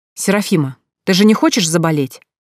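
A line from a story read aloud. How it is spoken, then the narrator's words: Stern but exhausted question. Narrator (Russian): строго спросила Эля, хотя на строгость уже не хватало никаких сил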